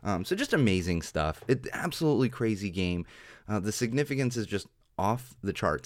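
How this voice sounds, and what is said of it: Hoarse, worn-out voice. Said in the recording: “my voice is a little bit gone today. It's a little bit shot.”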